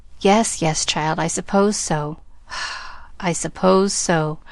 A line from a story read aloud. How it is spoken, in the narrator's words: sighed Mrs